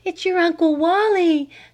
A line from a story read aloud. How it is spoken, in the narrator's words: panted her mother